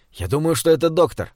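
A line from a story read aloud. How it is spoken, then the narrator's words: Strained, forced out. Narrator (Russian): выдавил из себя Лёва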